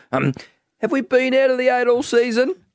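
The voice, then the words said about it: Imitates another person's voice. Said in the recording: “It's a good Ross Lyon impersonation ... It's very good.”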